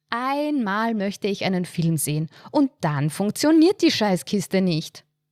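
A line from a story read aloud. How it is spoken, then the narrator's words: Dramatic exclamation. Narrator (German): rief sie dramatisch aus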